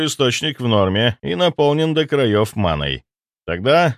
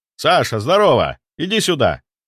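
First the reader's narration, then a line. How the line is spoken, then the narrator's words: Shouted. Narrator (Russian): крикнул мне Федя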